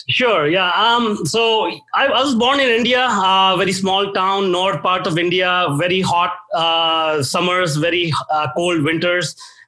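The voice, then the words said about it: Indian-accented English. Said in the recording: “from your accent, it doesn't sound like you were born there ... I'm from India originally”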